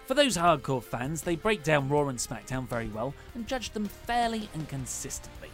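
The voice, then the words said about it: British accent. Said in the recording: “their British accents are easy to understand and incredibly funny ... Those Americans do love a British accent”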